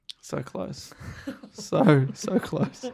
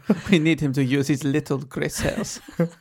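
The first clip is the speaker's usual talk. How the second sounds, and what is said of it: Put-on Belgian accent. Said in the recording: “I think that was a Belgian accent you just did.”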